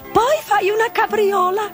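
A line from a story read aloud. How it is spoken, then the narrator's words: Shrieking griffin. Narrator (Italian): strillò il grifone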